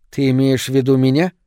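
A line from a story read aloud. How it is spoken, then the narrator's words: Indignant. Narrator (Russian): возмущенно говорит Джустин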